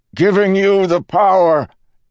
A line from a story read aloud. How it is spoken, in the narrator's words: he roared to Vin